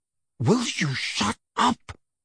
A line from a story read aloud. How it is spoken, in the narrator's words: Harry hissed